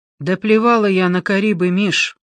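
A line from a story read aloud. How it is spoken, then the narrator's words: Dry, flat, sudden. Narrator (Russian): Сухо, безо всякого надрыва в голосе, вдруг выдала Леночка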